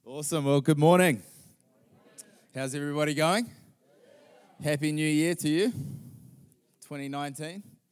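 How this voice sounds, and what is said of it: New Zealand accent. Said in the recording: “what's that strange accent? ... part Texan, part Kiwi”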